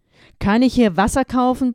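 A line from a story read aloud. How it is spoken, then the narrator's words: Shouting over loud noise. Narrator (German): brüllte, um gegen das Gekrächze aus dem Video anzukommen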